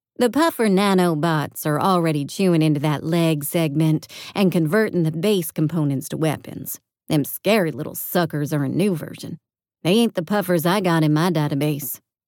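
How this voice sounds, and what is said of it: Southern-accented character voice. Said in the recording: “the Southern accent, but it was becoming jarring”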